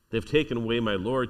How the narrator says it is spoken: she said

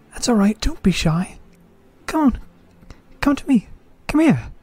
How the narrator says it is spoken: he says in a childlike voice

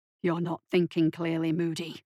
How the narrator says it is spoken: he hissed

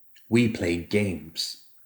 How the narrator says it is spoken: said solemnly

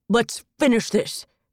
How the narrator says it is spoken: he bellowed

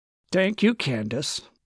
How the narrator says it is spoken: Landers said flatly

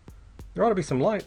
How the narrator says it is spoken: said, curtly

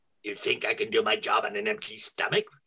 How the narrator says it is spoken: he hissed

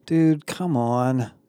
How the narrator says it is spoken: Connor groaned

